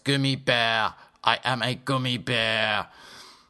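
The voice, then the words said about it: Put-on Germanic accent. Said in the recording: “Perhaps I should talk in my more Germanic voice.”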